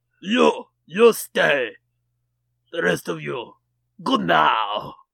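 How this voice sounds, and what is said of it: Over-the-top Russian accent. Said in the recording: “That's an over-the-top Russian ... Accent.”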